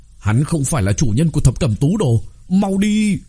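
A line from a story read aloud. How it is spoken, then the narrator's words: Old demon shouting. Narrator (Vietnamese): Một lão yêu trong đó hét lên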